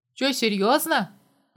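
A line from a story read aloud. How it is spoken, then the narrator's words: Grumbling. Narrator (Russian): проворчал Костя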